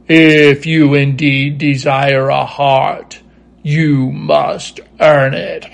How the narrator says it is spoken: Oz gave a low growl at this, but said gruffly

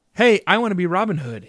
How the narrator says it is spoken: he shouted

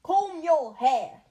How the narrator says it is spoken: barked

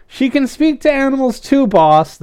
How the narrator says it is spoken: the pigeon shouted

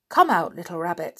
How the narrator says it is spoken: said

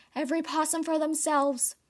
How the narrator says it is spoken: He silently yelled

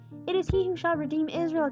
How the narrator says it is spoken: exclaimed Simon

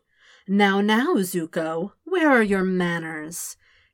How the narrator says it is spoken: he asked in a sweet tone

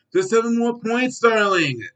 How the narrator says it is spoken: shouted Chad

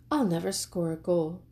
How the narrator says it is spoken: said Franklin sadly

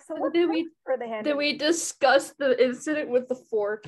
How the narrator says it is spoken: she was laughing at me

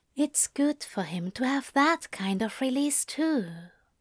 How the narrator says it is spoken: he whispered

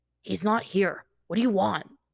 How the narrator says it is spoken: Jet let out something of a growl

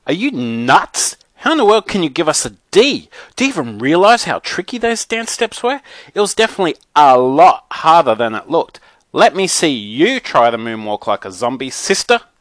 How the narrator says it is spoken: I screamed at my teacher

